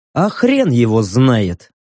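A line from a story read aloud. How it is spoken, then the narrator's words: Weary, smiling. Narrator (Russian): устало улыбнулся я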